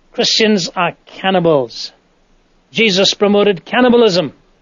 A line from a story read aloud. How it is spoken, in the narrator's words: a man abruptly shouted from the back of the tent